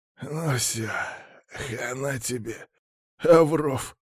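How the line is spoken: Tearful smiling hiss. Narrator (Russian): улыбнувшись сквозь слезы, прошипел лысый

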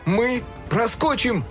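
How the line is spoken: Shouting. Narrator (Russian): крикнул он остальным

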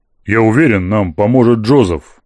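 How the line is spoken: Firm voice. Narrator (Russian): произнес твердым голосом

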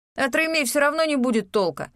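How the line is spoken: Scornful snort. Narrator (Russian): фыркнул Леон

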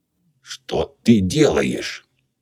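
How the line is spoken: Choked, plaintive interpreter. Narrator (Russian): у переводчика перехватило горло, и произнес он это не грозно, а жалобно

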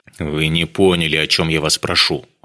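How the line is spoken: Irritated. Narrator (Russian): раздраженно сказал Дронго

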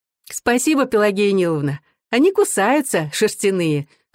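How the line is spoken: Laughing. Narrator (Russian): ответила Наташа, смеясь

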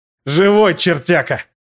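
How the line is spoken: Loud laughing. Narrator (Russian): Утес расхохотался

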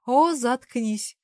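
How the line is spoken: Drawl. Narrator (Russian): протянула она

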